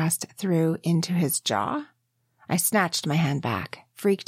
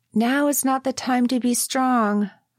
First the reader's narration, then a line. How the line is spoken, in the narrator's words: I called out after him